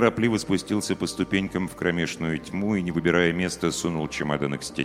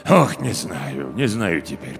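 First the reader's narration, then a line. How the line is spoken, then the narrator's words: Muttering building manager. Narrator (Russian): пробормотал управдом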